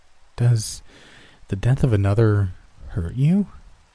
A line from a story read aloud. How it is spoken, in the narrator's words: it inquired in a confused tone